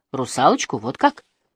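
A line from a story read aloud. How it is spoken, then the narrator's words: Thoughtful female. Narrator (Russian): задумчиво сказала Барбара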